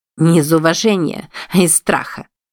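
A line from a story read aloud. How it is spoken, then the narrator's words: Snorting. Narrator (Russian): фыркнула она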